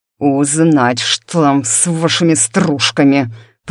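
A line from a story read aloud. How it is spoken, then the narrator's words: Growling, swallowing sounds. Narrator (Russian): прорычал Ерж, глотая звуки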